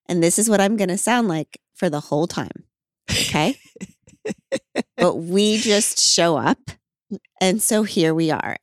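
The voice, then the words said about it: Low, sultry, sick-sounding voice. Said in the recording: “this incredibly sexy, sultry voice ... It is I, Glennon, with a cold ... sexy voice”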